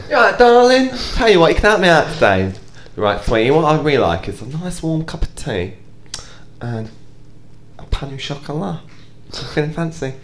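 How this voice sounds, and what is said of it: Camp, flamboyant put-on voice. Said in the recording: “very camp of you ... So I've been practicing my camp ... Did a very good impression.”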